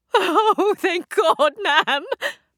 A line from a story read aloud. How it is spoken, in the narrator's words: Bettina wailed like a child